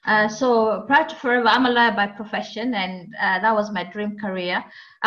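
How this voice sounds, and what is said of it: Kenyan accent. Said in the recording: “I'm originally from Kenya. I can have a Kenyan accent”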